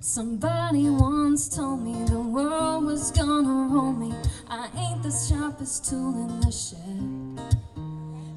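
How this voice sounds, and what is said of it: Sung in a put-on Scottish accent. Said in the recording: “It's hard to say your R's if you're in a Scottish accent.”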